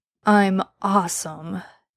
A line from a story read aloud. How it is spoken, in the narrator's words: Dean argued sleepily